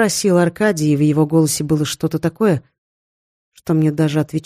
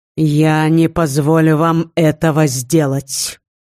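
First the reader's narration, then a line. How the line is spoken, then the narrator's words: Menacing. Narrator (Russian): грозно произнес Женя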